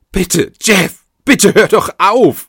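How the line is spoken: Pleading. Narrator (German): Sie flehte

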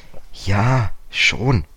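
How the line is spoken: Hesitant. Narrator (German): sagte George zögernd

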